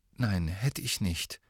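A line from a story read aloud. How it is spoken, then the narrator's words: Very quiet. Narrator (German): sagte Ron ganz leise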